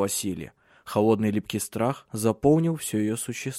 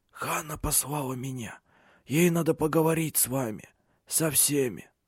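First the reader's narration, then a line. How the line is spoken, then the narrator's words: Hoarse. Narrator (Russian): Хриплым голосом он произнес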